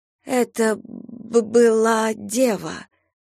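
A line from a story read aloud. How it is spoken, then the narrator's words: Stammering. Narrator (Russian): запинаясь, вымолвила она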